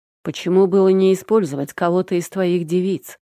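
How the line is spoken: Displeased question. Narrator (Russian): недовольным голосом спросил Андрей

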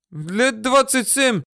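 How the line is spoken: Whining driver. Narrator (Russian): захныкал шофер

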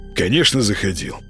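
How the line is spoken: Snort. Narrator (Russian): фыркнул Молчан

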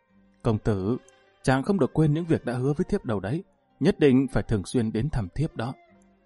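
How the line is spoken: Soft gentle voice. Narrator (Vietnamese): Tần Tiên Nhi dịu dàng khẽ nói

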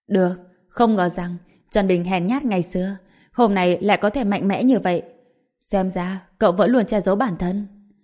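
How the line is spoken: Loud laughing. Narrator (Vietnamese): Giang Quốc Sương cười lớn tiếng, nói

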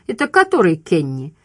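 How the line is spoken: Laughing. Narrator (Russian): Флайт рассмеялся

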